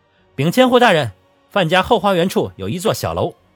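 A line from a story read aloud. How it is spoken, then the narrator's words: Loud report. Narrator (Chinese): 一名百户 大声禀道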